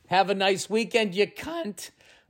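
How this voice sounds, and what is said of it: Voice cracks mid-sentence. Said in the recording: “My voice cracked.”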